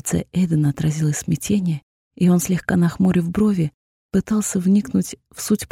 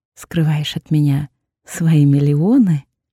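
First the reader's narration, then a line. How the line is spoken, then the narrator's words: Teasing drawl. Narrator (Russian): Дразняще протянула я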